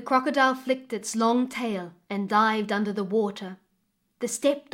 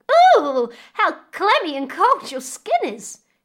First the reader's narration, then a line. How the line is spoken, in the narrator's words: cried